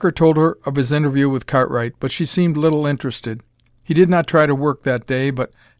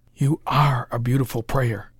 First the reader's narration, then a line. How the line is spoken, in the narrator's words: whispered Parker